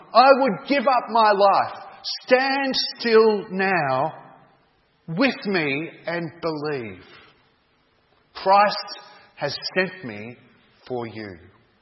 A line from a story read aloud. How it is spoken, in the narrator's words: cried John